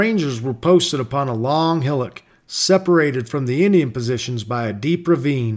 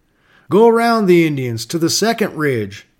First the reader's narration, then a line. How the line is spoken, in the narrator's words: cried the knowing captain